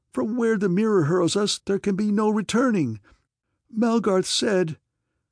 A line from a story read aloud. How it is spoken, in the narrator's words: I cried